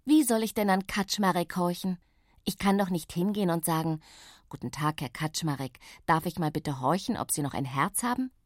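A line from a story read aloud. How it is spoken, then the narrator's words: Plain. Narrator (German): fragte ich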